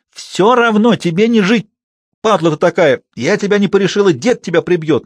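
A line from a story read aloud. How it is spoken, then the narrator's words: Straining hoarse scream. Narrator (Russian): надрывая голос, кричала она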